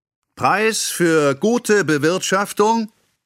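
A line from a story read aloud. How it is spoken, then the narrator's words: Called out from below. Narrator (German): rief unten der Redner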